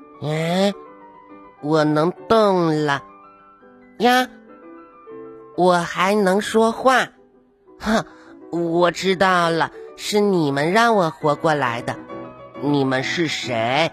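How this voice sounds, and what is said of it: Thin, small character voice. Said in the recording (Chinese): “一个细细的声音说”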